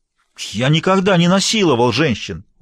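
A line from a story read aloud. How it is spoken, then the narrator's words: Exclaimed. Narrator (Russian): воскликнул Бобби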